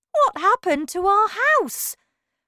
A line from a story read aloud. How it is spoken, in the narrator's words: cried poor Mr